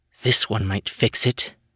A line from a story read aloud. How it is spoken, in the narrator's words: said under her breath